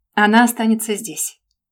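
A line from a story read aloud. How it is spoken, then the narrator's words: Commanding tone. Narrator (Russian): приказным тоном поставил перед фактом Светлану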